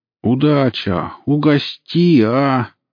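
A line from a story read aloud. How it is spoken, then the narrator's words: Whiny drawl. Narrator (Russian): плаксиво протянул один из окурков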